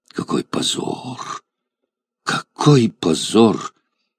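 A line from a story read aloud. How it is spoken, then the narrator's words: Trembling quiet exclamation. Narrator (Russian): восклицал один из них дрожащим голосом и так тихо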